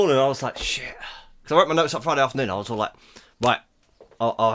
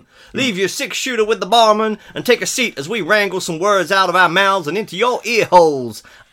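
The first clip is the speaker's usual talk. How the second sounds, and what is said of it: Put-on Western cowboy accent. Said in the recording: “accent ... That was really good. I'm really impressed.”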